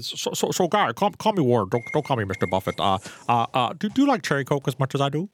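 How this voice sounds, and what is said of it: Warren Buffett impression. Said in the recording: “I try to do a Warren Buffett impersonation.”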